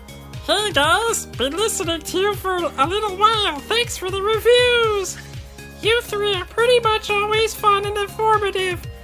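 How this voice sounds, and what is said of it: Weird put-on reading voice. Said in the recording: “in a weird voice ... Yes, weird voice. ... Weird voices for the win. ... this is horrible”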